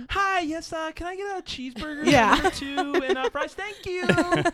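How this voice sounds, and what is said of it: Fake high-pitched happy drive-thru voice. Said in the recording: “And a drive-thru voice... You make it more high-pitched and happy... that's a fake ass voice”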